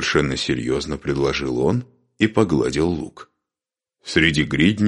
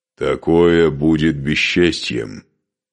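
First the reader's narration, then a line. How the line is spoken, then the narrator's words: Muffled, hollow voice. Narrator (Russian): глухо проговорил Скарпи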